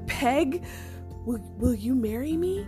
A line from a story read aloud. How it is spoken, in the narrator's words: Peg gasped